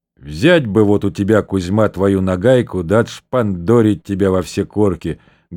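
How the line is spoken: Measured soft bass. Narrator (Russian): говорил ему с расстановкой своим внушительным и мягким баском управляющий

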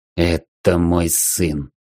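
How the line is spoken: Trembling voice. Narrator (Russian): дрожащим голосом кальт

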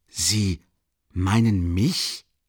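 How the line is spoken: Stuttering. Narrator (German): begann stotternd

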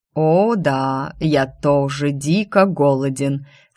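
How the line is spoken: Predatory drawl. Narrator (Russian): с хищным блеском в глазах протянул он

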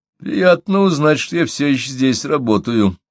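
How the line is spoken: Through gritted teeth. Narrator (Russian): проговорил я сквозь зубы

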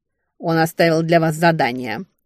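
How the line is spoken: Snorting female voice. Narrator (Russian): фыркнула секретарь

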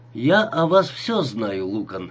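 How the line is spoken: Quiet harsh male voice. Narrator (Russian): заговорил мужчина своим негромким, резким голосом

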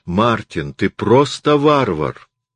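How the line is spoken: Exclaiming. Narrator (Russian): Тайми воскликнула

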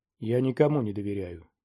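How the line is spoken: Quiet. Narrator (Russian): тихо произнес Гуэра

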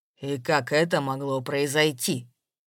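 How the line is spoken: Calm question. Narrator (Russian): Вдруг совершенно спокойно спросил он

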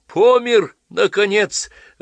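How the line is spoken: Joyful shouting. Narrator (Russian): радостно кричал Василий Половинкин

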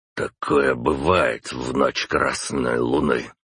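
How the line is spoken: Sighing. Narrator (Russian): вздохнул император

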